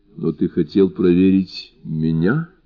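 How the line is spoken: Completely calm voice. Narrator (Russian): Голос ее звучал совершенно спокойно

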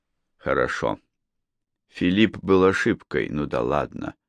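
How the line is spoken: Plain. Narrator (Russian): сказал Малкольм

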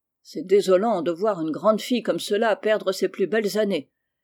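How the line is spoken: Grumbling aunt. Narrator (French): grommela tante Juliette

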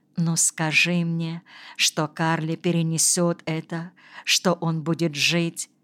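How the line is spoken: Whispered reply. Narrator (Russian): Анна Квангель прошептала в ответ

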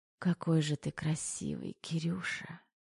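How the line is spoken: Muffled whisper. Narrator (Russian): приглушенный шепот

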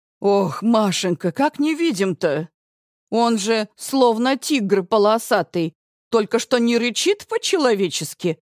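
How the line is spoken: Grumbling. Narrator (Russian): ворчит Галина Федоровна

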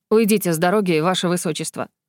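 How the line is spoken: Cold, clipped. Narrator (Russian): холодно отчеканил Крисмер

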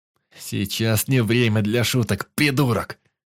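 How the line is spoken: Furious growl. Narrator (Russian): зарычал я, желая придушить этого придурка

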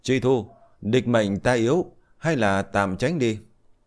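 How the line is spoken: Urgent loud shout. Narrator (Vietnamese): Liễu Tuyết thấy tình thế khó khăn, khó mà giành phần thắng, bèn hét lớn

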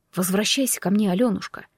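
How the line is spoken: Sudden soft speech. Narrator (Russian): вдруг проговорил Иван

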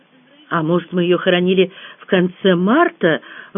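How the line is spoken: Timid suggestion. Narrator (Russian): робко предположила я

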